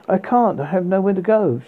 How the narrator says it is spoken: she cried all the more

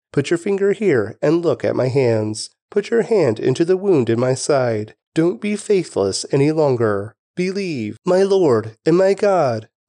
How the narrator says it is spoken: Thomas exclaimed

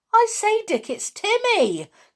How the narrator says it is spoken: cried in joy

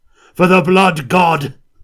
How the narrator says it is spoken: He cried, bellowing out the war cry

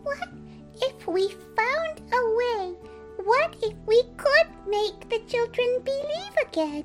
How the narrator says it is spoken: She said to him very sweetly

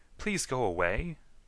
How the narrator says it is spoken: begged one

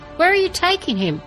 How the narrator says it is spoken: Ulric called out

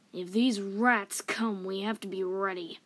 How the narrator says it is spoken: grunted

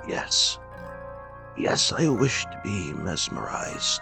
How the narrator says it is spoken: He replied feebly, yet quite audibly

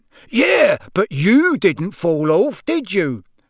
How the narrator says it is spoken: roared Amos genially

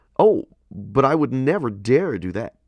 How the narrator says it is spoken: cried a young man

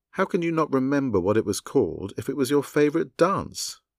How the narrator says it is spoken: Raw exclaimed

